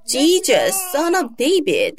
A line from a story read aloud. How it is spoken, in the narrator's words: He shouted several times